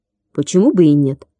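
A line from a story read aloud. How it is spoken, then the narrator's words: Irritated reply. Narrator (Russian): раздраженно отозвался Гоша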